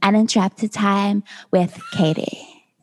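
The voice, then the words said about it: Imitates another person's voice. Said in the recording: “my Tayshia impression... That was better. Better... Oh, that was good.”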